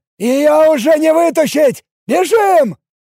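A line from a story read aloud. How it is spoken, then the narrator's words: Shouted. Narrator (Russian): выкрикнул Алекс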